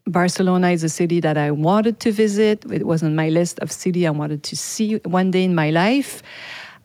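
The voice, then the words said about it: French accent in English. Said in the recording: “what's this accent? My mother tongue is French. My first language is French.”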